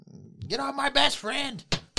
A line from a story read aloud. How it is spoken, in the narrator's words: yell